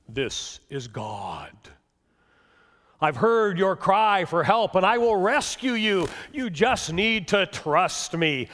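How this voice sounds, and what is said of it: Deep voice as God. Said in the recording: “deep voice”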